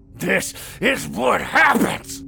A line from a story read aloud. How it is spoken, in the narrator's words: Carl growled and coughed